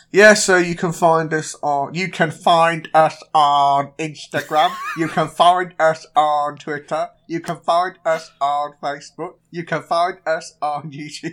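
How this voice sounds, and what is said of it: Imitates another person's voice. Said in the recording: “This is this is ... doing an impression of Ash doing an impression of”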